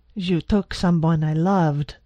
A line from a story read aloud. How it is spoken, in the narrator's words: Medina snarled